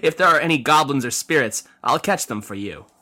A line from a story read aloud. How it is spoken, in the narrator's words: Yin replied with a laugh